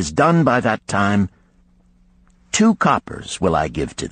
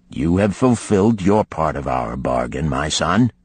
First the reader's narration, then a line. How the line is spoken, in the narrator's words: he said to me kindly